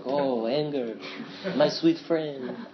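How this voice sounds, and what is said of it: Imitated French accent of Pascal Auclair. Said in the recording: “this Dharma teacher, Pascal Auclair ... He has this really like nice French accent too ... I borrow his voice sometimes”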